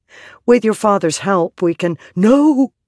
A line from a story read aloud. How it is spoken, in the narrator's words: Gliss said urgently